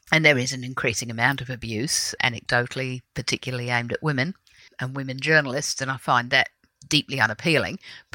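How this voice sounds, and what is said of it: Faint English accent. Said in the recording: “we can still hear just the mere vestiges of your English accent.”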